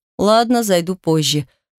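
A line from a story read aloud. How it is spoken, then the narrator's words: Snort. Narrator (Russian): хмыкнул Артур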